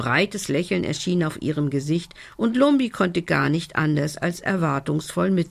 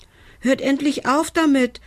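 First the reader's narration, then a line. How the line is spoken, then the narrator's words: Called out. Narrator (German): rief er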